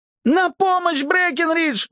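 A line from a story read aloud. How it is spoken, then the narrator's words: Howling. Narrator (Russian): взвыл он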